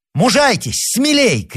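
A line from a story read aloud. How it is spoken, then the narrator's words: Shouting. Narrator (Russian): крикнул Рауль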